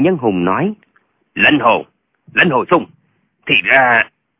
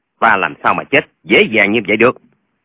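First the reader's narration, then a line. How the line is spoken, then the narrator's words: Cold. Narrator (Vietnamese): Lệnh Hồi Xung lạnh lùng nói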